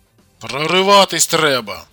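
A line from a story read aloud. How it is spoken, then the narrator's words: Shout. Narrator (Russian): крикнул Костик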